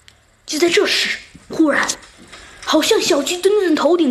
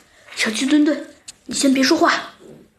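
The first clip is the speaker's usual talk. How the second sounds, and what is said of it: Quiet, hushed voice. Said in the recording (Chinese): “小声的回答道”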